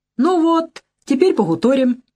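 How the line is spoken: Cheerful speech. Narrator (Russian): весело сказал Крамов

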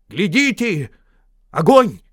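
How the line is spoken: Sudden shout. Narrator (Russian): вдруг Балин, который выполнял роль дозорного, закричал

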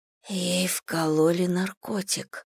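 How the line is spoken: Whisper. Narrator (Russian): прошептала Элли

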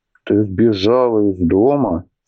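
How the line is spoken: Plain question. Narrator (Russian): спросил Атхи

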